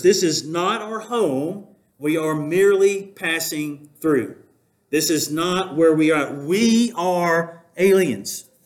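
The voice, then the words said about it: Southern accent. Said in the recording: “in my southern accent”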